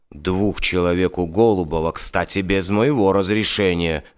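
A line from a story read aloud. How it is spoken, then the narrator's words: Angry remark. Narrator (Russian): зло заметил генерал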